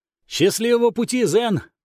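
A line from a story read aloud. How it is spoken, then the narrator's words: Little monk shouting. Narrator (Russian): прокричал монашек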